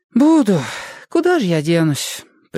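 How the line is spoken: Exaggerated mournful sigh. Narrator (Russian): Преувеличенно горестно вздохнула Света

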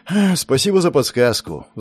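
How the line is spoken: Sigh. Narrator (Russian): вздохнул

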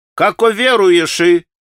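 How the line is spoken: Shouting like a holy fool. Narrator (Russian): прокричал отец Ферапонт, юродствуя

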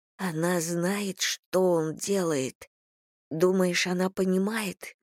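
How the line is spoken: Whispered. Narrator (Russian): прошептала Скай

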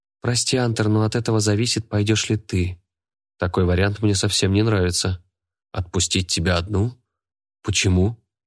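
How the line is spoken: Forced calm. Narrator (Russian): Пытаюсь говорить спокойно

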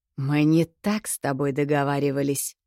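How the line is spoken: Hiss. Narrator (Russian): прошипел Ольха

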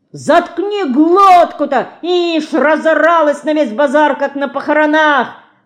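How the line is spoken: Market woman shouting. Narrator (Russian): закричала торговка

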